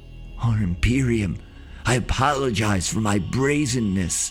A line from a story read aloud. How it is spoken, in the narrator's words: said between intermittent gasps